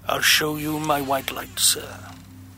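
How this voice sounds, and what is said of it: Peculiar low voice. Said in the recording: “in his peculiar low voice.”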